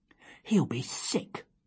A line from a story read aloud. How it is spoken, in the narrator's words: whispered Matthew